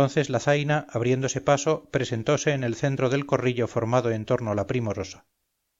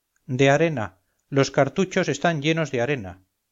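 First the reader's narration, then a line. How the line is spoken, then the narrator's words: Girl exclaiming. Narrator (Spanish): exclamó la muchacha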